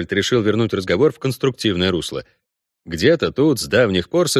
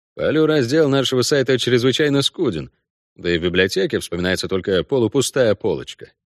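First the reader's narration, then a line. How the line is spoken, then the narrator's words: Dry remark. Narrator (Russian): сухо заметил Кайон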